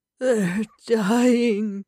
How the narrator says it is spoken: he moaned

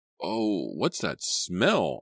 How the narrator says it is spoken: I cried, covering my nose and mouth

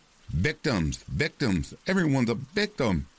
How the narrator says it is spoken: he bellowed

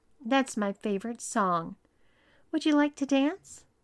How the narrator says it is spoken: Even though he wasn't thrilled about it, Tom sweetly told him

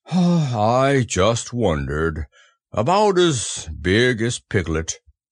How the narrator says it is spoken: he said to himself sadly

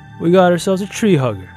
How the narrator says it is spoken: he chuckled

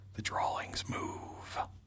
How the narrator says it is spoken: Jason leaned toward him and whispered

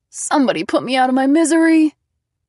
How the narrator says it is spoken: Isaac wailed

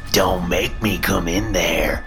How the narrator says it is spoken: she growls, her voice tinged with demonic menace

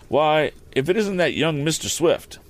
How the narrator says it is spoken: He exclaimed

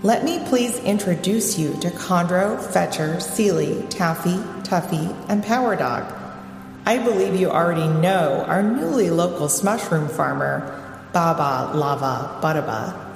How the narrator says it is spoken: said Roger

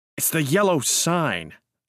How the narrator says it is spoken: I said angrily

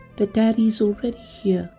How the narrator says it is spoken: the girl continued dreamily

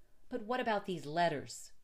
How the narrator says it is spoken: cried

